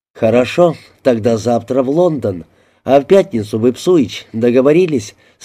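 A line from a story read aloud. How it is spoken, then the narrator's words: Plain. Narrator (Russian): спросил я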